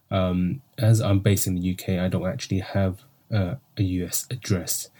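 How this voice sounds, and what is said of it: British accent. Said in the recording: “I love the accent. You guys all know I love the British accent.”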